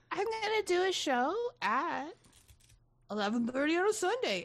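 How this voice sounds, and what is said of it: Imitates another person's voice. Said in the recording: “That's a good Maria impression.”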